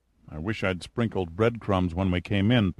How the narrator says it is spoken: Pitt murmured

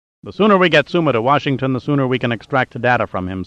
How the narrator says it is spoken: said Brogan

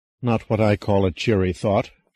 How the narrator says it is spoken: she murmured

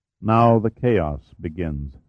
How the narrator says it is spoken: said Sarveau

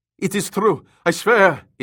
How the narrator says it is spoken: Isfording cried

